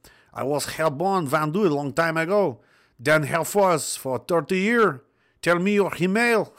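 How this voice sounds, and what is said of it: Put-on French accent. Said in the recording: “please read this with a French accent. ... I don't know how to do a French accent.”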